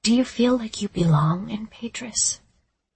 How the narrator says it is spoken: I asked him in almost a whisper

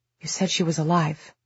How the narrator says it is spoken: he said, and in his voice there was fear and accusation

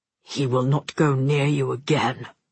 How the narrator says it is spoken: Father growls

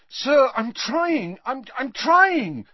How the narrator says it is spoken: said Harry desperately

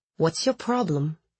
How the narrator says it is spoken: he asked in a low voice

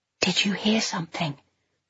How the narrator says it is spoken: whispered as low as I could

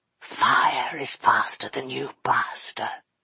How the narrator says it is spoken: he whispered

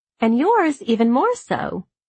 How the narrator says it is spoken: Liz tried to infuse her voice with extra friendliness as she replied

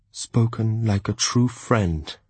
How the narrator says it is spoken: he said

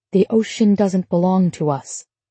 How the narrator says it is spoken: Laura said quietly

